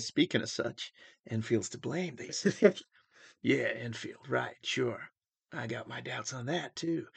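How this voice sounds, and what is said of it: Clint Eastwood-style Southern accent. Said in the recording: “Everyone sounds like Clint Eastwood... everyone sounds like Clint Eastwood, yeah, because that's the only South accent I can do.”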